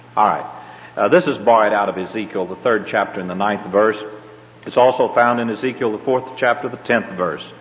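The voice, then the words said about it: Southern American accent. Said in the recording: “my southern accent, I say eyes”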